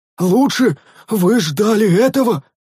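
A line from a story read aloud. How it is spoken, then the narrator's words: Exclaiming. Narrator (Russian): воскликнул один из монахов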